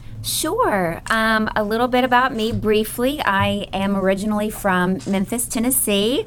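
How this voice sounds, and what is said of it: Southern US accent. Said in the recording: “Can y'all tell with that accent? ... I try and hide it sometimes, but it comes out every now and then.”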